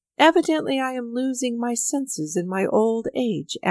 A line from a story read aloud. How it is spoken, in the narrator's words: Avdyich laughed to himself